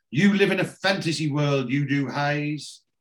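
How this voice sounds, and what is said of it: Impression of Barry. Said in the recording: “she did a Barry impression.”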